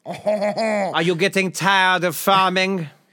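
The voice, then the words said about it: Attempted French accent. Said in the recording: “how do you do a French accent?”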